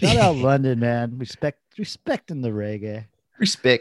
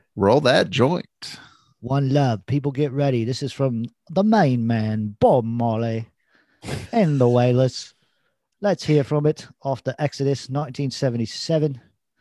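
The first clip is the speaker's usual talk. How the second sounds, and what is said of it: Put-on English accent. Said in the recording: “you did an English accent, not a Jamaican accent.”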